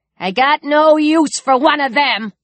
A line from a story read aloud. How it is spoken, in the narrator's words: the Luger lady spat